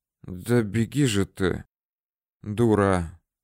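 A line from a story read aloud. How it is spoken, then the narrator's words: Faint dizzy whisper. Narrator (Russian): шептал Свирид, чувствуя, что мир его валится на бок, опрокидывается и уплывает от него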